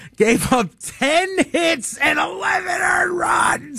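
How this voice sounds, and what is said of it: Usual voice. Nothing is said of it.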